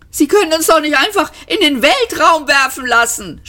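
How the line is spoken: Scream. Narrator (German): schrie Ford

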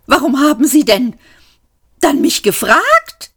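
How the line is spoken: Shrieked. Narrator (German): kreischte

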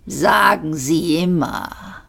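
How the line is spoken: Alien growl. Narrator (German): knurrte der Vogone

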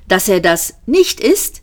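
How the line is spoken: Exclaimed. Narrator (German): rief Ford

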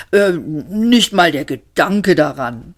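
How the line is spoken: Growling. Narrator (German): knurrte Mr

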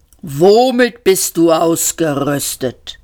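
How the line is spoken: Thundering disbelief. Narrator (German): donnerte der Panzer ungläubig

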